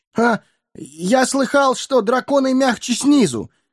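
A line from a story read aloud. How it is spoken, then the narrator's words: Frightened squeak. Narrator (Russian): испуганно пискнул Бильбо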